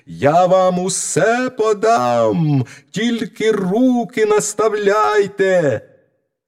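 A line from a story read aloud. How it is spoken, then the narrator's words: Loudest possible shout. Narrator (Ukrainian): мізинчик знову закричав, скільки було голосу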